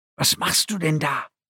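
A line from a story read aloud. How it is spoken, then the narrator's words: Whisper. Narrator (German): flüsterte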